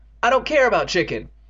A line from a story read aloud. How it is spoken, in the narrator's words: Evan shouted, losing control